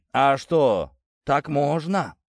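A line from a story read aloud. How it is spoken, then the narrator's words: Deep booming voice. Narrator (Russian): прогудел Тит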